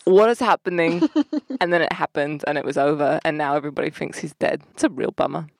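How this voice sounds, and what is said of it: Well-done put-on accent. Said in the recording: “Talking in that accent. ... That's one of my favorite accents that you do. You're really good at it.”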